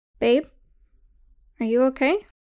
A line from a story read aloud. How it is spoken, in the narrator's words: Missy called out from the pivot of a prancing horse circle